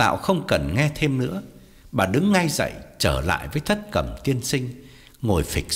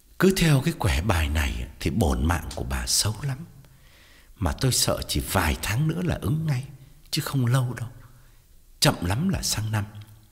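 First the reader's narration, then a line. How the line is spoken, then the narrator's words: Heavy sighing. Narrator (Vietnamese): Thầy thở dài thườn thượt và bảo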